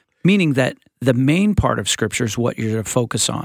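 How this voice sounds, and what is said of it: Usual voice. Nothing is said of it.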